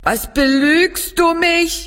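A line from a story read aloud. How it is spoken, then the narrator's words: Called out. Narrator (German): rief sie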